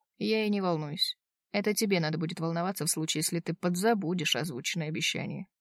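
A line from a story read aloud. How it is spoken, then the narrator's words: Curt dry retort. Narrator (Russian): отрезал сухо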